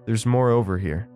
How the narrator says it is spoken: she called out

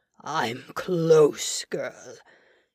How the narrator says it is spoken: he growled

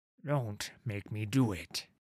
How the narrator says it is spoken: Olar growled at Sigvar

